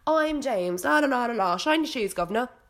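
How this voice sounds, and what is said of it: Put-on English accent. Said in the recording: “James is the English one... can't find the accent right now. There it is.”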